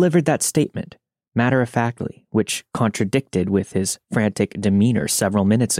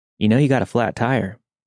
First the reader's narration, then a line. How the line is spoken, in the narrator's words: He calmly approached us and said